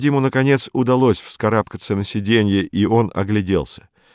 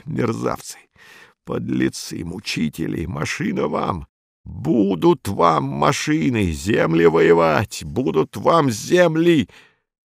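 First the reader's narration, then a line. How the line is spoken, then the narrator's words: Speech through gritted teeth. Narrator (Russian): говорил сквозь зубы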